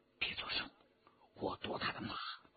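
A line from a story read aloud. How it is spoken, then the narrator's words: Low voice. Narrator (Chinese): 徐天红低声说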